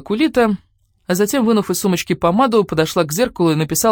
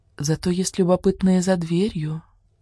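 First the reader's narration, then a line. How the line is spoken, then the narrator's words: Whisper right into ear. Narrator (Russian): Кулита касаясь губами ухо прошептала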